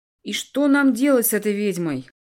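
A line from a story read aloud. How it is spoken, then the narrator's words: Asked loudly. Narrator (Russian): громко спросил Типалье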